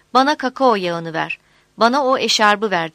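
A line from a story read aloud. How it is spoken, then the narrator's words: Group shouting. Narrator (Turkish): diye bağırıyorlardı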